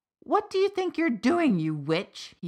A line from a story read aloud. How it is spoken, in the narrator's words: he yelled